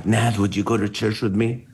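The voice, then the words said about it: Whispered line. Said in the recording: “why are you whispering?”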